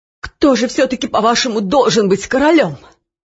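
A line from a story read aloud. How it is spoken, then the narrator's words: Changed, muffled voice. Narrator (Russian): спросил Нушрок изменившимся почти глухим голосом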